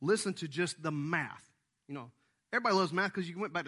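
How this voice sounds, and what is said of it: Usual voice. Nothing is said of it.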